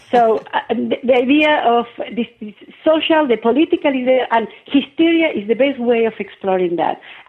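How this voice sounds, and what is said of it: Argentinian accent in English. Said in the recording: “keep traces of the mother tongue, as you may hear in my accent ... I cannot get rid of my accent ... speaking English with an Argentinian accent”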